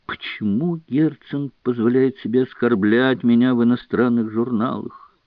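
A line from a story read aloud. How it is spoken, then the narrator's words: Weary mutter. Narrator (Russian): Гоголь, словно устав защищаться, еще пробормотал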